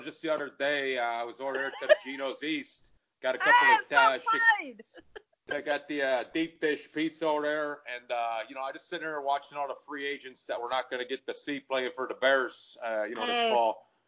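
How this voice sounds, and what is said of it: Exaggerated Chicago accent. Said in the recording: “someone with a Chicago accent ... I could do lots of different ones”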